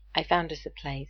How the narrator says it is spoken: he says, keeping his voice down

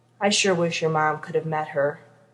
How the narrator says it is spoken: He heard his dad heave a sigh, and then he said

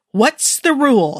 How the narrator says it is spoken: He yelled

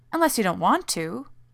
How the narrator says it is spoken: Rodney said hastily

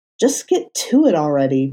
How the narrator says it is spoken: Matt snapped

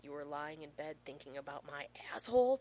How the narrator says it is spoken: John hisses

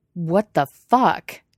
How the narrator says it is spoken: Guillermo snarls

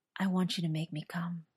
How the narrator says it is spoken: whispered

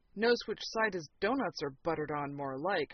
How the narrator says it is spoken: Fraser muttered

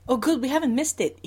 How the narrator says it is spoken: he says happily

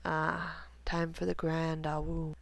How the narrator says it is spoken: Remus murmured into Severus's skin

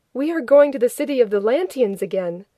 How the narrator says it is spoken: The known that Rodney was helping informed them happily

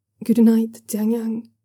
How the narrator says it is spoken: Luo Fuxiong says gently

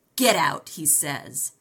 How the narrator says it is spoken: sneered the ruffian

